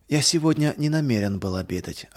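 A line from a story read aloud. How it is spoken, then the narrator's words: Plain. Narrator (Russian): ответил я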